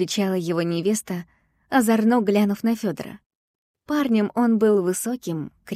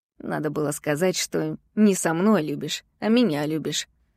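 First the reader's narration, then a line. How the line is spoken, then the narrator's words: Grumbling. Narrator (Russian): пробурчал тот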